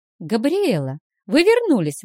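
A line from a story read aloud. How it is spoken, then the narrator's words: Joyful exclamation. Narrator (Russian): воскликнула радостно Вилма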